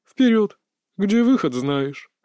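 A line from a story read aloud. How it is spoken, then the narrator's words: Chuckling. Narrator (Russian): хохотнул Толик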